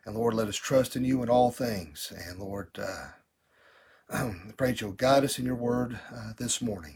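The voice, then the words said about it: Choked-up, emotional voice. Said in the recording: “getting choked up this morning”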